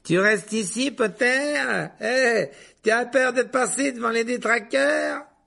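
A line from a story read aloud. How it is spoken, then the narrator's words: Shouted. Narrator (French): cria Malfoy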